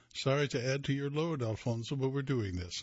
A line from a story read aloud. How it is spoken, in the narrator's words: she said with a laugh